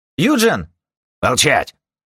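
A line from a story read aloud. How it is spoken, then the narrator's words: Barked command, guard. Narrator (Russian): рявкнул охранник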